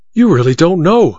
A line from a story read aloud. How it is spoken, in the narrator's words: cried Goodell, his eyes blazing